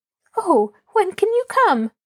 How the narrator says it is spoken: Rosemary asked eagerly

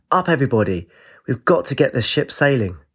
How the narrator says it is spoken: she cried

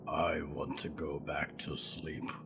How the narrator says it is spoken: Mort rumbled

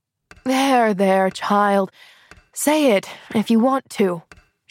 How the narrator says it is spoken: she sighed

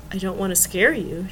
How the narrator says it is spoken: said softly

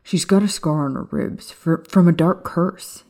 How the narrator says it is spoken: he blurted out

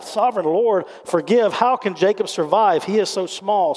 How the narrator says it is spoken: cried out

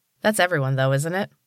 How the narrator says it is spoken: Allie said

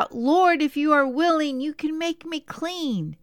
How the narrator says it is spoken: He cried out

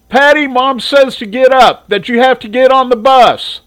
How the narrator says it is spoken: Gypsy yelled up

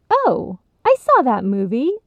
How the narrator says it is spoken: piped up with a smile of her own

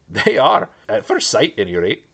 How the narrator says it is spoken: laughed Pippin with a sudden relief

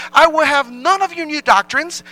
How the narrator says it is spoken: he exclaimed

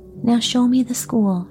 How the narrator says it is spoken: she begged

